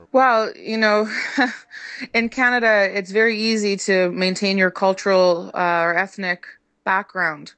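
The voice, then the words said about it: Canadian English accent. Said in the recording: “you have a very Canadian accent”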